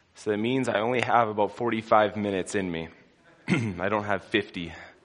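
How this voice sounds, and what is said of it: Sore, strained voice. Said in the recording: “I'll probably have to clear my throat a couple times. ... My voice is a little sore this morning.”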